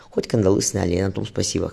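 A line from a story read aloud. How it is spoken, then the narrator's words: Captain's snort. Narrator (Russian): хмыкнул капитан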